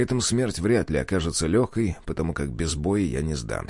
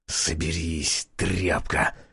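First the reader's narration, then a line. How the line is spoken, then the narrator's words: Hissed. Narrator (Russian): прошипел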